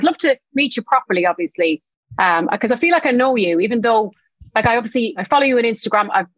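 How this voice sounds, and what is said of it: Irish accent. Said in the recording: “Your accent is so nice ... you're from Tipperary ... I'm from Tipperary in Ireland”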